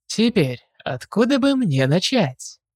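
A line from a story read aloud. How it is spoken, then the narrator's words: Thoughtful, musing. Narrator (Russian): Задумался доктор Брайт, задумчиво нахмурив лицо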